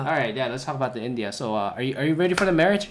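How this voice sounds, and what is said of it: Put-on Indian accent. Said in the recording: “I do a bit of an Indian accent here.”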